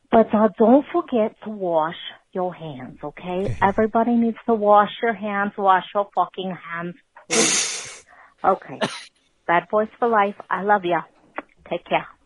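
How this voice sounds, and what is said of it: Inconsistent put-on New York accent. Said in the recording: “that accent was all over the place ... It was New York ... It was like New York. It was New York. It was like all over the place”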